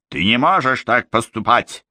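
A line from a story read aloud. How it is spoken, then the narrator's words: Growled. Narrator (Russian): прорычала Момби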